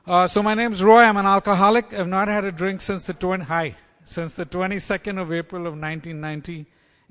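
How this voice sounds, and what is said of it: Non-American foreign accent. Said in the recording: “as you've probably figured out from my accent by now, that's not where I'm from.”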